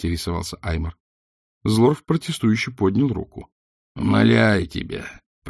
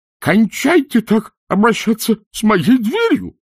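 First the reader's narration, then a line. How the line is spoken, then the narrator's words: Shrill squeal from under table. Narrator (Russian): взвизгнул из-под стола Пузан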